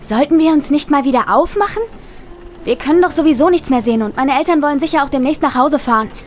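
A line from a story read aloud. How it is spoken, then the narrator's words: Near-shout over rain. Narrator (German): schrie meine Cousine fast, um den lauten Regen zu übertönen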